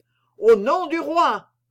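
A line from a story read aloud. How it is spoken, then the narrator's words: Shouting. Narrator (French): criait Comminges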